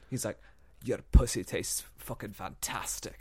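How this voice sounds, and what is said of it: Imitates another person's voice, accent. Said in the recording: “It was a good accent.”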